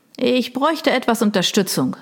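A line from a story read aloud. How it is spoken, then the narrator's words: Calling out. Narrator (German): rief er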